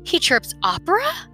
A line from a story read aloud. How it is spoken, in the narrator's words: exclaimed Papa